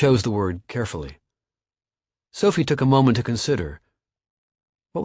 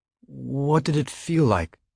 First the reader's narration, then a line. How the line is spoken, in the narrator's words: he asked hesitantly